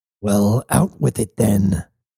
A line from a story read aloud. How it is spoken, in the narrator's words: growled Cybele